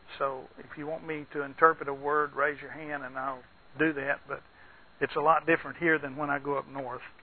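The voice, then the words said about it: Texan and Deep South accent. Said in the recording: “I speak Texan. I also have mixed in that some deep south Alabama, Mississippi, Arkansas, worked many years in Louisiana.”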